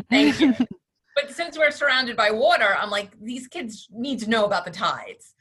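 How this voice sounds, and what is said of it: Long Island New York accent. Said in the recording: “I'm in New York, I'm on Long Island. Hopefully my my accent is not coming out too much.”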